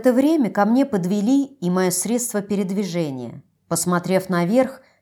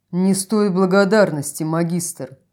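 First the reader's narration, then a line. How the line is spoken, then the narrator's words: Deep bass voice. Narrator (Russian): пробасил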